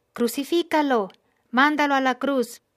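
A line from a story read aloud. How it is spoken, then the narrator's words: Crowd keeps shouting. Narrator (Spanish): siguieron gritando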